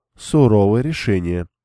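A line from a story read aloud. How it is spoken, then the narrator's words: Sad remark. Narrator (Russian): грустно заметила Рианя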